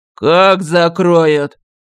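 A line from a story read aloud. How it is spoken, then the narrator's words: Growling. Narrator (Russian): зарычал он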